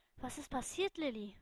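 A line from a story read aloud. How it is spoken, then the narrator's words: Calm question. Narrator (German): fragte sie mit ruhiger Stimme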